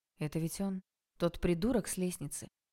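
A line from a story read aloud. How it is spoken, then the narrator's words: Completely calm question. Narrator (Russian): Как-то совершенно спокойно спросил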